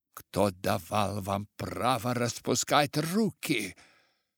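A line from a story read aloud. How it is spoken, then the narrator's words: Tired accented bass voice. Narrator (Russian): послышался чей-то усталый с гратонским акцентом бас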